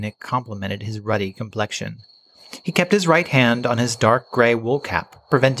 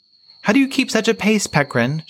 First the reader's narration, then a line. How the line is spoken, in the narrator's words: called out